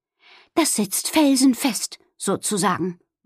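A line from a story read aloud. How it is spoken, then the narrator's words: Satisfied murmur. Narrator (German): murmelte zufrieden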